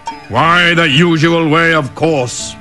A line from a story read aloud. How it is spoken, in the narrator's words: hollered the tiger